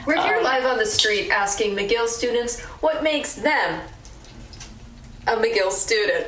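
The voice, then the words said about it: TV news reporter voice. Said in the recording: “This is my WMUR impression.”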